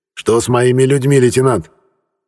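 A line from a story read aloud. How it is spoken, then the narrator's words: Angry question. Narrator (Russian): Зло сощурившись, спросил адмирал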